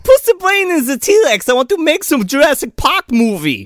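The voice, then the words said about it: Mock German accent impression. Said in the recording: “It's worse than my German accent. ... that's the real Uwe Boll, all right? That's what he sounds like.”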